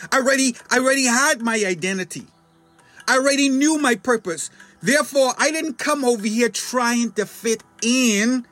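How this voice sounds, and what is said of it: Bahamian accent. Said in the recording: “you have an accent and you're from the Bahamas ... you still have your accent”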